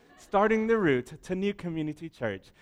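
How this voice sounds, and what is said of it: Put-on British accent, GPS voice. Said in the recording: “your GPS has a British accent”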